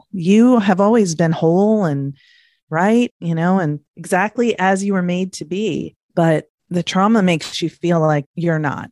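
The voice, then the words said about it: Emotional voice. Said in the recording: “I'm getting emotional”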